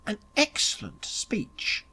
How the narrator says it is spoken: murmured Smith courteously

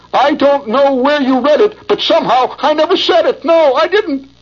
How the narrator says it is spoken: He howled

